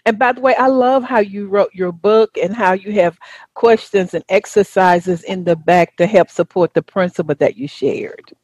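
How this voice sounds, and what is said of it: Southern American accent. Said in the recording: “That's my Southern accent.”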